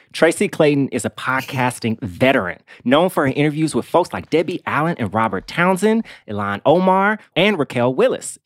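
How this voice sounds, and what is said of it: Formal journalist-style voice. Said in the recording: “I'm doing this in my journalist voice because I'm saying important things”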